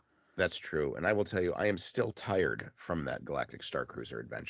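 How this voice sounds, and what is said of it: Groggy, tired-sounding voice. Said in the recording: “You sound a little groggy.”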